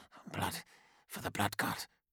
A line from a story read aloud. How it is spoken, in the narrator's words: murmured, issuing the words like a prayer